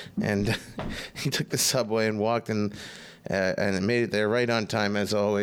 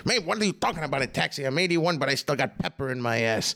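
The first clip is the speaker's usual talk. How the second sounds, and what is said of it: Impression of Pat Cooper. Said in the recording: “I can't do a Pat Cooper impression, but he goes, what are you talking about? Maybe like that.”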